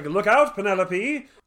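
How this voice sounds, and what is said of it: Cartoonish Dudley Do-Right style voice. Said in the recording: “Morrissey voice is like Dudley Do-Right. That's my Morrissey.”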